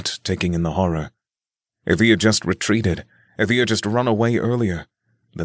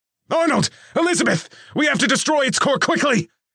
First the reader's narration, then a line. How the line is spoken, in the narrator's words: Nick shouted, his voice resounding with urgency